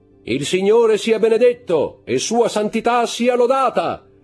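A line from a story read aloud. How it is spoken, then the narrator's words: Loud, clear voice. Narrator (Italian): disse con voce alta e chiara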